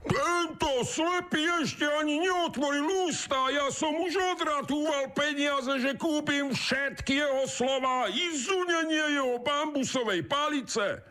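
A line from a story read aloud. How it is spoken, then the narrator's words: Shouting. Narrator (Slovak): kričí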